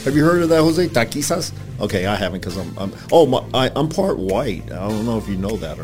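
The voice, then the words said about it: Slight country accent. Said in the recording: “it's a little bit of your accent. I can tell you sound a little country.”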